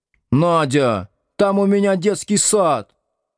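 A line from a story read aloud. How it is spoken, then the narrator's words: Shout. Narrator (Russian): закричала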